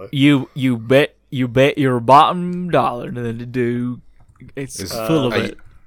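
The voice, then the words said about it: Put-on accent. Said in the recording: “Are you going to do that accent the whole time?... who apparently managed to get through a degree with that voice.”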